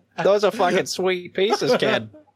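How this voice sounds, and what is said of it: Put-on Boston accent. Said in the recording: “There's the Boston accent, kid.”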